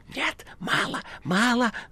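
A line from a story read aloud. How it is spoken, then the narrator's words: Whisper. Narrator (Russian): зашептал Коровьев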